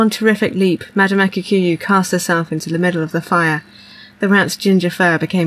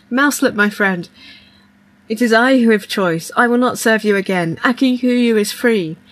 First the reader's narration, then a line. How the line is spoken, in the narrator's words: shouted